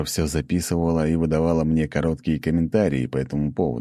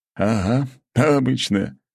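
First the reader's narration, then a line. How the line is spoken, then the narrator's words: Skeptical snort. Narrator (Russian): хмыкнул князь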